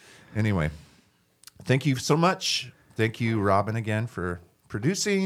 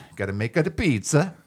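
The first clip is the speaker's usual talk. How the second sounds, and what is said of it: Put-on Italian accent. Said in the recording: “That's my Italian accent.”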